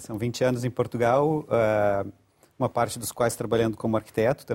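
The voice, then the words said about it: Brazilian Portuguese accent. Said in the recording (Portuguese): “Mas não deixou o sotaque.”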